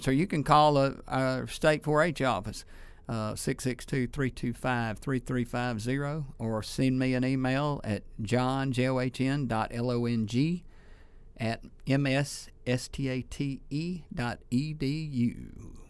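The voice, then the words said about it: Polished radio announcer voice. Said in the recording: “Was that a good radio voice I did then? ... Yeah. I thought so. Sounds awesome.”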